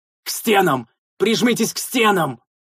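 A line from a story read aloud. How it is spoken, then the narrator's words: Shouted. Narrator (Russian): прокричал я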